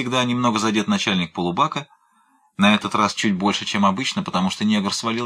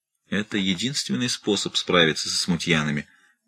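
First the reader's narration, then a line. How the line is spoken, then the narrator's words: Very quiet mutter. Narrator (Russian): пробормотал корсар так тихо, чтобы его слышал один Уайлдер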